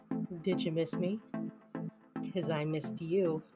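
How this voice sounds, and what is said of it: Sultry, seductive tone. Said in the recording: “sexy voice”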